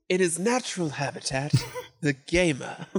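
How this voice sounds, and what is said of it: David Attenborough impression. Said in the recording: “your accent is much more apt for David Attenborough impressions.”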